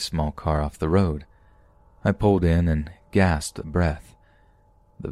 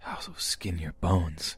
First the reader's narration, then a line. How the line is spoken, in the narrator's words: The whispers would say things like